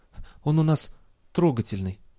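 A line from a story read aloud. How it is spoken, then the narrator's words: Hoarse, strained. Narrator (Russian): сипло выдавил он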